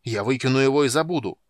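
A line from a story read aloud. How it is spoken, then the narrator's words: Shout. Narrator (Russian): крикнул он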